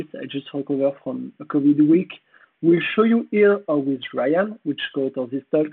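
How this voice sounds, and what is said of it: French accent, hoarse voice. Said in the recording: “Sorry for my French accent and my hoarse voice.”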